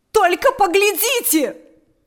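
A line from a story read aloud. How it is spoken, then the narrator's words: Shouting. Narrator (Russian): закричала она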